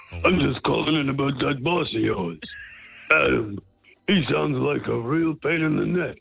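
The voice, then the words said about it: Imitates another person's voice. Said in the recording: “It's Rodney Dangerfield here... if you didn't tell me it was Rodney Dangerfield”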